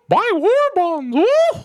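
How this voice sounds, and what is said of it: Mickey Mouse cartoon voice impression. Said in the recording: “That was my impression of Mickey in the 40s.”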